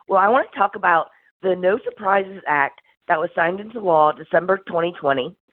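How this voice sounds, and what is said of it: Slightly squeaky voice from a cold. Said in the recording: “my voice is a little squeaky today. I'm uh, got a cold”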